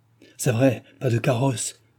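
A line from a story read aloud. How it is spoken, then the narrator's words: Exclaiming. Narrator (French): s'écria Jean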